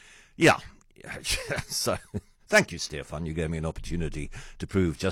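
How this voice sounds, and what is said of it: Usual voice. Nothing is said of it.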